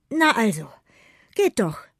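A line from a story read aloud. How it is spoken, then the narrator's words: Panting. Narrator (German): keucht Noah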